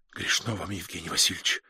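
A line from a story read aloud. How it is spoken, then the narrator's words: Whispered. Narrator (Russian): шепнула она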